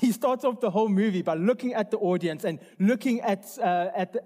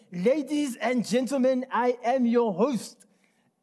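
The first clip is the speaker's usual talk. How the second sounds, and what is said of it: Put-on German accent. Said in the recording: “I'm going to try my best German accent. ... world class German right there.”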